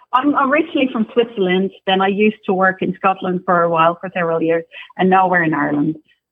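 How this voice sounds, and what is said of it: Mixed Swiss-Scottish-Irish European accent. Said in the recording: “I hear a little Scottish accent. ... has all three accents all in one. ... I kept hearing like something ... European.”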